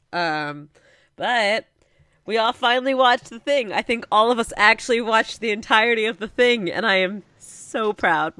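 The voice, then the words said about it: Sick-sounding voice. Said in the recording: “I'm very sick, so I apologize for my voice.”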